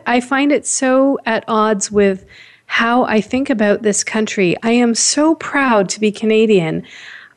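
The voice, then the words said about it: Upset, emotional voice. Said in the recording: “very distressing, very upsetting ... you can hear in my voice”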